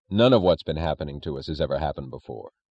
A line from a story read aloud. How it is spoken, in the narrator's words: said Brent, with an astonishing sound of weariness in his brisk, competent voice